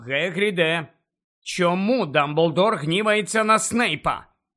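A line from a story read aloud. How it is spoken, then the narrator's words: Loud insistent questioning. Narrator (Ukrainian): голосно допитувався Гаррі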